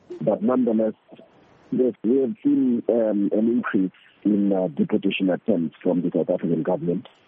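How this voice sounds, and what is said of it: Sick, congested-sounding voice. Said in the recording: “I hope I'm audible enough from coming up with the flu... coming up with the flu, I'm hoping that my voice is audible enough”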